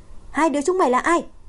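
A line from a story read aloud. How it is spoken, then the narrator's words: Shout. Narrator (Vietnamese): Chu Khải hét lên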